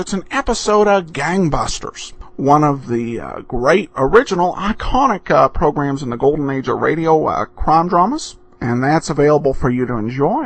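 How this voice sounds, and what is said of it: Hard-to-place accent, sometimes unclear. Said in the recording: “a difficult to understand accent at times ... I don't have an accent ... some people have kind of struggled to figure out what the accent is”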